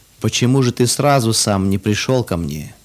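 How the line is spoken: Sad question. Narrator (Russian): грустно спросил отец

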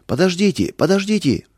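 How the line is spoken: Shouted. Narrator (Russian): закричал он

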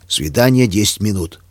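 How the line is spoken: Commanding bass. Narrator (Russian): проговорил нетерпящим возражения басом

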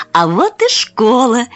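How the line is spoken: Exclaimed. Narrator (Russian): воскликнула

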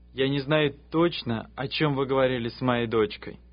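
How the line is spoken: Plain. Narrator (Russian): сказал он

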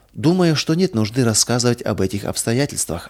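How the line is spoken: Plain. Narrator (Russian): ответила тетя

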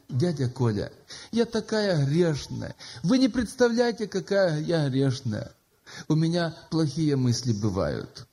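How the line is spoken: Sobbing. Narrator (Russian): всхлипывая, она говорит

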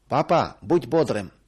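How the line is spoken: Shout. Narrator (Russian): крикнул

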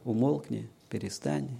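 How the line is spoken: Calm. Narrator (Russian): Спокойно сказал

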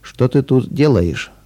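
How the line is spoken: Cold question. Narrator (Russian): холодным тоном спросил он

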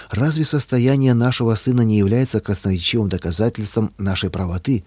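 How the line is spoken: Sad question. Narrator (Russian): печально спросил муж

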